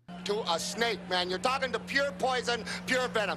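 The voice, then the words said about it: Midwestern, Detroit-like accent. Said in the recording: “He's Dan Aykroyd. That's who he sounds like. ... That's like a Detroit accent. ... Like Midwest, right? Like Chicago”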